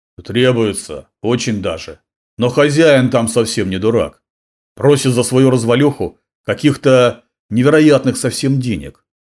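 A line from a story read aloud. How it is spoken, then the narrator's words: Angry blacksmith. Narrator (Russian): сердито выговорил кузнец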